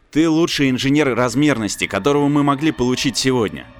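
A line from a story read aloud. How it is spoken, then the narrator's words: Plain. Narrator (Russian): сказал Прайми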